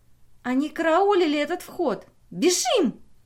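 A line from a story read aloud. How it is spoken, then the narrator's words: Shriek over engine roar. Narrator (Russian): взвизгнула стараясь перекричать рев самолета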